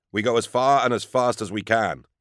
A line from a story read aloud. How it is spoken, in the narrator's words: he said